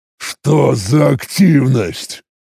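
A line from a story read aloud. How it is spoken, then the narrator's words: Irritated imitative growl. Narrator (Russian): Раздраженно прорычал я, стараясь максимально подражать манере Крыгыра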